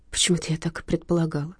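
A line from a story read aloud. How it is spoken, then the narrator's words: Mutter. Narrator (Russian): пробормотала Ариадна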